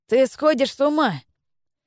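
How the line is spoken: Uncontrollable laughter. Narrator (Russian): Стефан рассмеялся и почувствовал, что не может остановиться

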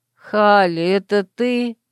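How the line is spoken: Sleepy displeased grumble. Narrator (Russian): недовольно пробурчала сквозь сон Мирон

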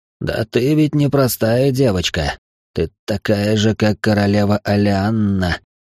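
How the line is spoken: Hoarse, restraining desire. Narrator (Russian): хрипло произнес стараясь унять желание

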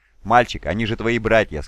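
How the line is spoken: Plain. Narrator (Russian): сказал Круз

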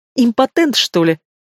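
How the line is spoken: Nasty giggle. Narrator (Russian): Мерзко хихикает четвертая собеседница

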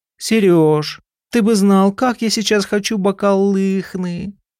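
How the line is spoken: Sad. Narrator (Russian): она печально сказала

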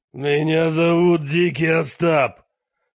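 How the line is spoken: Roar. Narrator (Russian): проревел незнакомец

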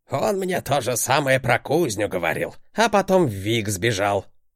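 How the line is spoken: Old man grunting. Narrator (Russian): хмыкнул дед

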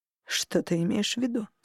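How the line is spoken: Quiet question. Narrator (Russian): спросил Хартат тихо

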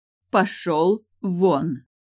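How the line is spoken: Slow, loud speech. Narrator (Russian): Медленно и громко произнесла она

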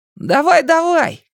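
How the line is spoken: Shouted reply. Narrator (Russian): крикнул в ответ Ричи

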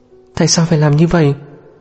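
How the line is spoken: Trembling voice. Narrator (Vietnamese): Giọng của Lạc Tranh cũng run rẩy theo

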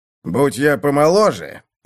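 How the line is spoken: Seller, through clenched teeth. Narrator (Russian): процедил продавец

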